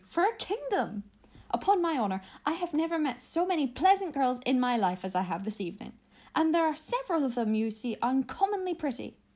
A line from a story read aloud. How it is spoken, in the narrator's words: cried